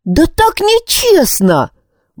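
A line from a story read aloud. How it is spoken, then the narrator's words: Exclaimed. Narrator (Russian): воскликнула Крис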